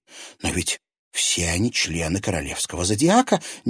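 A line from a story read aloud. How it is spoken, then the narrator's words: Unrestrained exclamation. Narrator (Russian): не сдержавшись, воскликнула она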